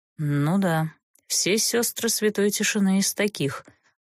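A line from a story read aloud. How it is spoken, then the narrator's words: Grim smirk. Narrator (Russian): мрачно усмехнулся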